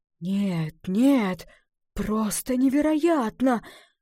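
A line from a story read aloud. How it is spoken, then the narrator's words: Breathless exclamation. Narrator (Russian): выдохнул лесник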